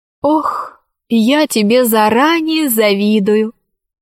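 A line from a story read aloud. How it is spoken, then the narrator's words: Ghost sighing. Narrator (Russian): вздохнуло привидение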